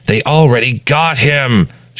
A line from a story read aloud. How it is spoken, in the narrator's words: shouts Julian